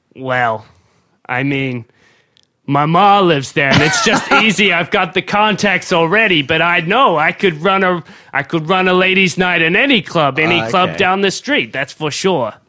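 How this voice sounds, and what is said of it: New York accent. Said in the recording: “your mum, I'm guessing, is also from New York. ... That's where I'm from. I'm glad you can pick up my accent.”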